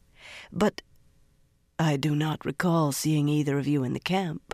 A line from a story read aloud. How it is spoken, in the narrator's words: the woman said in a throaty, almost sultry voice